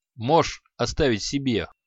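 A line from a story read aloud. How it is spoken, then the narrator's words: Snorting. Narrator (Russian): хмыкнул Креол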